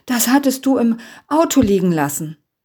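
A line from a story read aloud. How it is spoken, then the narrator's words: Panting. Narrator (German): keuchte er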